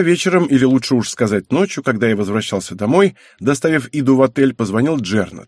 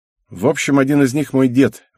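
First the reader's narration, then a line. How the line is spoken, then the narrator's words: Young man sighing. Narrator (Russian): вздохнул парень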